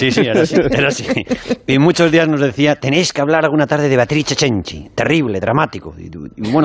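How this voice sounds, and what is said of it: Usual voice. Nothing is said of it.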